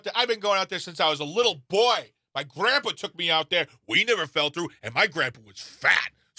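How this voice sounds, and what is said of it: Character voice of overconfident local guy. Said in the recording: “That was the impression of a guy standing at the edge of Lake Mendota thinking to himself,”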